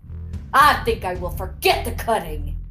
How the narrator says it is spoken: he growled

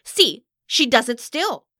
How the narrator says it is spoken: Valli exclaimed

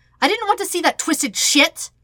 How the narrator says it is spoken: Sokka snaps right back

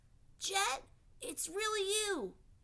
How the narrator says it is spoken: the child exclaimed

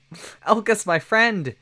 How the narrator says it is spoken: shouted Kelly

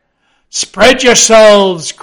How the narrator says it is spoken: cried Ahab

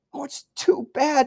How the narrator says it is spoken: sobbed Lucy

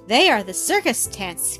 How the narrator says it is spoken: cried the boy

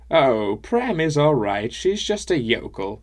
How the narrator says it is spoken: She laughed again and said

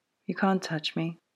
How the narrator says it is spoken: she said quietly

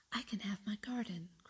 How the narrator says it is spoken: cried Mary

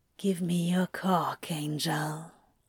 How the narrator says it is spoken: Crowley murmurs in his ear

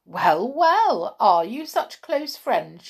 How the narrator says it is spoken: cried

